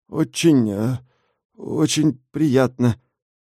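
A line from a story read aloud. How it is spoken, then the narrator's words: Mumbled. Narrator (Russian): промямлил Ося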